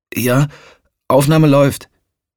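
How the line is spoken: Calling back. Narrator (German): rief er zurück

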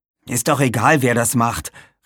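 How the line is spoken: Annoyed call. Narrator (German): rief Aaron genervt

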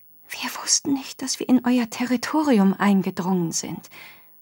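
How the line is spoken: Added very softly. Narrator (German): setzte sehr leise hinzu

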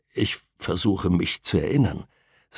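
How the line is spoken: Strangely broken voice. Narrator (German): sagte er mit seltsam gebrochener Stimme

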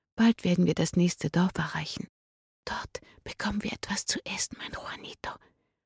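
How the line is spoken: Whispering to a child. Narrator (German): flüsterte sie dem Kind zu

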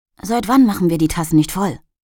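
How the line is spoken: Hiss. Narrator (German): zischte ihr Roger zu

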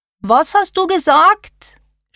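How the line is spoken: Shouting. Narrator (German): schrie Karin

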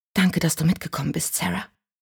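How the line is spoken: Whisper. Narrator (German): flüsterte

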